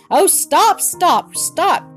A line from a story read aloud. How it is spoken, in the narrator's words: cried Bobby